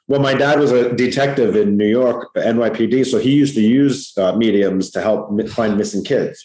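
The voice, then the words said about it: Long Island New York accent. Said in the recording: “I'm from Long Island, New York ... You can hear that ... This is this accent ... real New York”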